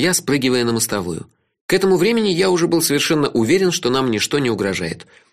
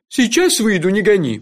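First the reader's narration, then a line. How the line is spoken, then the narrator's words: Grumbling. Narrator (Russian): проворчал он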